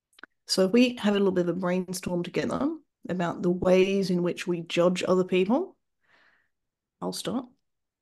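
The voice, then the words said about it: Australian accent. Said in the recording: “So I'm Australian, for example. You might just be judging me because my accent's a bit weird.”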